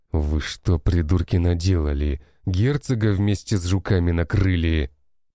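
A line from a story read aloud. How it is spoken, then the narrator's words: Angry growl. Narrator (Russian): прорычал он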